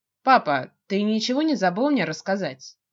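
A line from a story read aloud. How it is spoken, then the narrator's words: Trying to sound calm. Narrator (Russian): пытаюсь говорить спокойно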